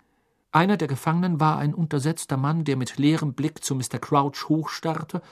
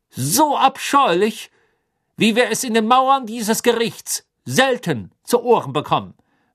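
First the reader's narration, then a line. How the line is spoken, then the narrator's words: Raised voice drowning another. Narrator (German): sagte Crouch mit erhobener Stimme, die die seines Sohnes erstickte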